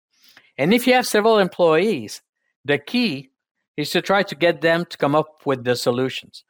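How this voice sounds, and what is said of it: Speaker's own foreign accent. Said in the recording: “in English in particular with my strange accent”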